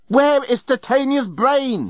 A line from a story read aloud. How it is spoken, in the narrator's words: he yelled